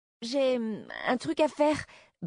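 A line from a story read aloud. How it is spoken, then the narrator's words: Stammered. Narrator (French): bredouilla-t-il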